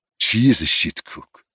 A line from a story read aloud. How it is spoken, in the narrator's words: he muttered